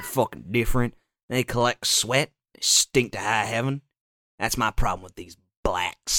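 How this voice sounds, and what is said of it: Usual voice. Nothing is said of it.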